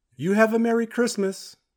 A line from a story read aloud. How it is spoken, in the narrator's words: The cop leaned out of her car window and shouted